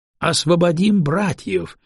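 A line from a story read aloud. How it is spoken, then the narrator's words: Joyful crowd echo. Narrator (Russian): был тут же радостно подхвачен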